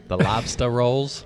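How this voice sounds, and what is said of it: Bad put-on Boston accent. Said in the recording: “that's a horrible ... Boston accent ... Terrible ... Tennessee ... Southern”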